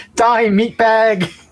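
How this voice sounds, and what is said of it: Screamed cartoon robot character voice. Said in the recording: “in my best Bender impersonation, I screamed”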